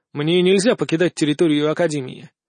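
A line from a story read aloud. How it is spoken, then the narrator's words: Dry reply. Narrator (Russian): сухо ответил ей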